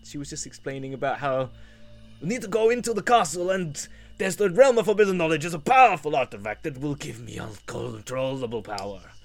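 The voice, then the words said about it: Deliberately bad Russian accent. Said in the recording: “I'll try and do my Russian accent again, terribly”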